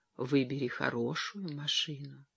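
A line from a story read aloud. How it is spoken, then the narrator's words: Whisper. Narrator (Russian): с неподдельным восхищением, прошептала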